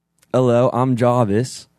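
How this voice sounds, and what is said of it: Attempted British-accented AI assistant voice. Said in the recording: “British accent ... you're doing his voice ... Wasn't terrible.”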